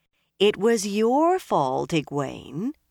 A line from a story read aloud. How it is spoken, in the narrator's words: Rena said